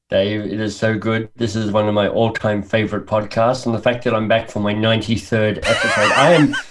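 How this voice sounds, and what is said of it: Mixed Australian, British, Canadian accent. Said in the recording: “grew up in Australia, went to school in the UK, and now lives in Canada ... a really weird accent”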